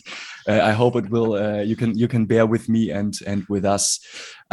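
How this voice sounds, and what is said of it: German-accented English. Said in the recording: “my German sausage accent”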